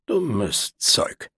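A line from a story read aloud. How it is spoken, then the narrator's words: Grumbled afterward. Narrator (German): brummte hinterher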